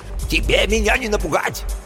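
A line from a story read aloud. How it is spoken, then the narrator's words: Yelling. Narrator (Russian): орал что-то вроде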